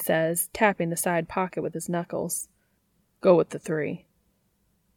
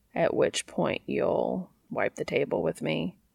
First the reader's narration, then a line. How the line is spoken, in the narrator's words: Cass asks dryly